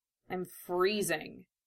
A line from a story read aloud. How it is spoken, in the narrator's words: growled through gritted teeth, wincing at the rough soreness in his voice